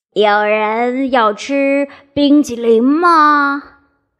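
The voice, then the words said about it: Fuzzy, friendly wolf voice. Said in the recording (Chinese): “一个毛毛的又友好的声音说道”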